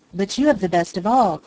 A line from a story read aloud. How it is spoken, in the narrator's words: cried Peter